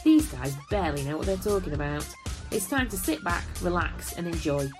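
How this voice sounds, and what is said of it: Fancy British accent. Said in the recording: “My fancy British accent”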